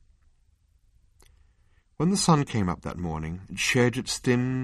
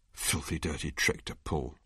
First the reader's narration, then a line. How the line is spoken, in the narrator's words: muttered Arthur